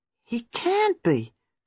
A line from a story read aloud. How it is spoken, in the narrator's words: cried Gwenda